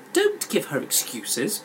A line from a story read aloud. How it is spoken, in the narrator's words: the tall sister snapped